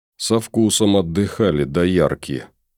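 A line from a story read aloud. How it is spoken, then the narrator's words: Grumbling under breath. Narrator (Russian): буркнул себе под нос красавчик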